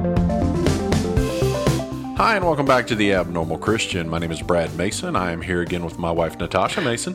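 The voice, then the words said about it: Put-on radio announcer voice. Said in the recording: “you got your radio voice on”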